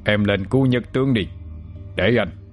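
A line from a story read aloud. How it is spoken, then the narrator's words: Stern, forceful. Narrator (Vietnamese): Ông ta gằn giọng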